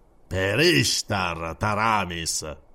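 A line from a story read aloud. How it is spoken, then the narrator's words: Velvety tone. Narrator (Italian): disse con tono vellutato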